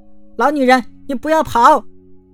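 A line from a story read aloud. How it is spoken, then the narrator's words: Angry shout, young girl. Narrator (Chinese): 小公主气的是连连跺脚，叫道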